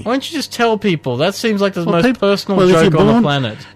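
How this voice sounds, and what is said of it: American accent. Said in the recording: “He says with an American accent”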